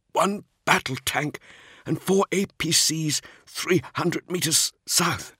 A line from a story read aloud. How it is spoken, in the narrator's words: he said, his voice rough with pain